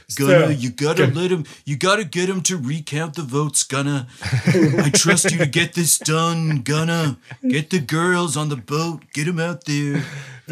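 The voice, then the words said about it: Poor imitation of another person's voice. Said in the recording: “that's a horrible Donald Trump impersonation ... way better than I can really do”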